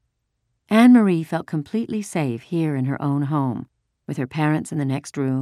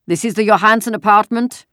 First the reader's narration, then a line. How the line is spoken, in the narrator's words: a deep voice asked the question loudly in the terribly accented Danish